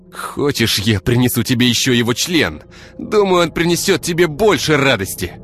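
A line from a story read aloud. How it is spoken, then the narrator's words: Snapping retort. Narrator (Russian): огрызнулся Артем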